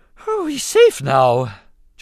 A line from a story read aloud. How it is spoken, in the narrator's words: Jar Jar observed with a grateful sigh